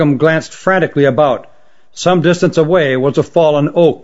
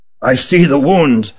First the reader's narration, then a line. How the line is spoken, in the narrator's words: said Ruggum gravely